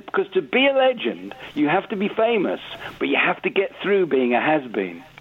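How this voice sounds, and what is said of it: Imitates another person's voice. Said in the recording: “in a Stuart Lee voice”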